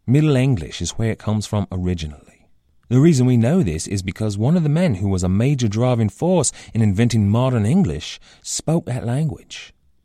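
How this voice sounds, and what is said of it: Bad imitation lower-middle-class Londoner accent. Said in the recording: “accent that I am most certainly butchering right now. This accent is an approximation, a bad imitation, really, of a lower middle class Londoner accent. It sounds a little bit modern, mostly because I'm really bad at it”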